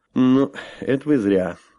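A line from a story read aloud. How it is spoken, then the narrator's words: Snorting. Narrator (Russian): хмыкнул я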